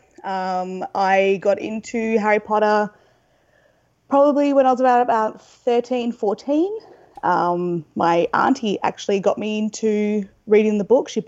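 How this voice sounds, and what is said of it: Australian accent. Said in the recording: “I'm obviously from the accent, from Australia.”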